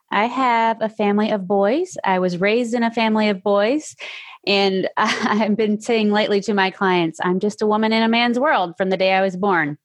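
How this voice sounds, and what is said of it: Slight Tennessee Southern accent. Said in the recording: “I am in Tennessee. You might hear a little bit of an accent.”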